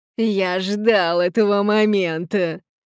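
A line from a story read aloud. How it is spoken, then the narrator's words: Malicious laughter. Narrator (Russian): злобно расхохотался тот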